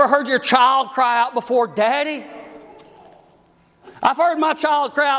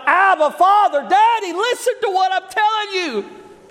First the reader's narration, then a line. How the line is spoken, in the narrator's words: he cried out